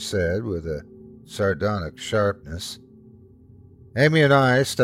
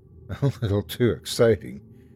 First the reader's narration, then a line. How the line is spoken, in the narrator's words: Amy said with a laugh